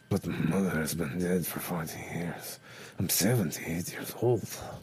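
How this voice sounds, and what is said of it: Throaty old-sounding Venezuelan accent. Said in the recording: “accent changed right then ... I'm doing a lot more throat, so you can really feel the character. And I'm not opening my mouth all the way, so it feels old.”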